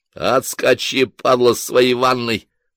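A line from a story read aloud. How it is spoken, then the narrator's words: Haunted growl. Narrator (Russian): прорычал с отзвуком вчерашнего кошмара Ким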